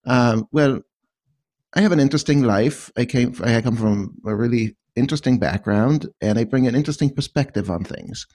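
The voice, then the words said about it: Speaks with a noticeable foreign accent. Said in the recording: “I have a funny accent.”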